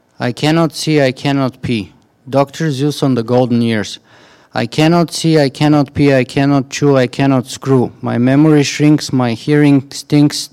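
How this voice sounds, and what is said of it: Bulgarian Canadian accent. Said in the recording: “Bulgarian Canadian accent”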